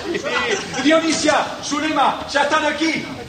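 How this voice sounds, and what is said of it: Shouting. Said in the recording (Spanish): “¡No grites! ¡No grites,”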